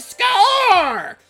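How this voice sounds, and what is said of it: Strained, shouted sportscaster impression. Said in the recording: “strain my voice doing an impression”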